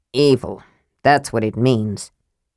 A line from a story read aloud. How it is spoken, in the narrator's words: said grimly